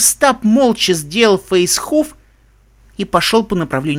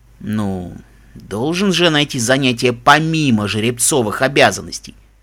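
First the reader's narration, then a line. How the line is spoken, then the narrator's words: Cheeky explaining tone. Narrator (Russian): пояснил прежним нахальным тоном Даггер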